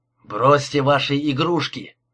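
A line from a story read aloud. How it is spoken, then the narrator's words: Barked from behind. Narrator (Russian): рявкнул голос позади машины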